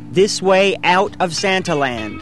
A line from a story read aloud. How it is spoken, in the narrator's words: telling people in a loud voice